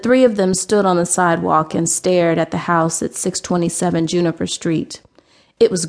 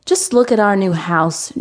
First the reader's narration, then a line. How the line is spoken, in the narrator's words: Gina exclaimed